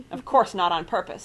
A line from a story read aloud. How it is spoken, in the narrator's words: snapped Mr